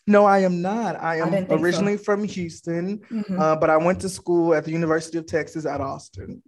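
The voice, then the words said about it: Texan country accent. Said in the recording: “Is the country accent coming out? ... I know a country accent, but that's not a Georgia country accent.”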